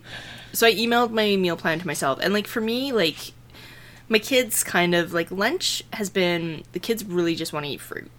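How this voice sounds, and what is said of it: Out of breath, panting speech. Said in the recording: “I'm out of breath from like running to get my blanket... Whew, I am out of shape.”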